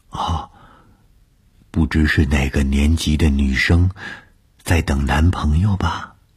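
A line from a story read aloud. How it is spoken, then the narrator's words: Whisper in ear. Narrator (Chinese): 她凑在我的耳边低声地说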